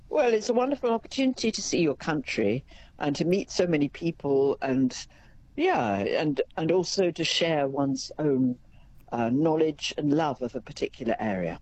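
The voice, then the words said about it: British accent. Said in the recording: “we can certainly hear by your accent that you are from the UK”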